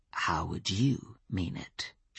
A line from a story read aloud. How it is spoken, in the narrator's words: she said softly